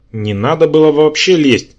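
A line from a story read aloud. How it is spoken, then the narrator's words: Annoyed grumble. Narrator (Russian): досадливо пробурчал я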